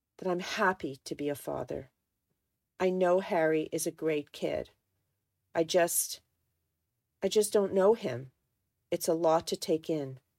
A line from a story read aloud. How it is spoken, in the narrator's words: began, his voice softer now